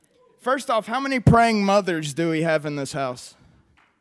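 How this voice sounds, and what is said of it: West Virginia accent. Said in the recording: “as you can hear from my accent. I'm from the mean streets of Beckley, West Virginia.”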